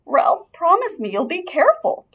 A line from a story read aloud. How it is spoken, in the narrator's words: pleaded his mother